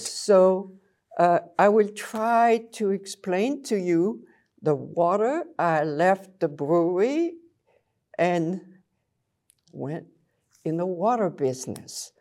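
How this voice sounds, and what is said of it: French Belgian accent. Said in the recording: “I came from Belgium with this little accent, French. It won't go away no matter what I try.”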